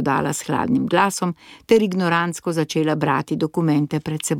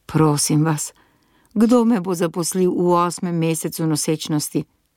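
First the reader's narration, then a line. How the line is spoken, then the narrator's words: Trembling voice. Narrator (Slovenian): sem vprašala z drhtečim glasom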